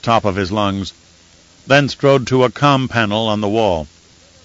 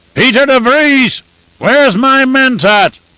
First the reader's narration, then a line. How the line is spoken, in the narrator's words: He shouted